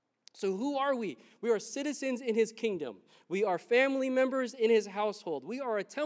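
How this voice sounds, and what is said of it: Usual voice. Nothing is said of it.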